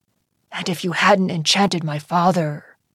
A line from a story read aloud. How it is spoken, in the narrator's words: he whispered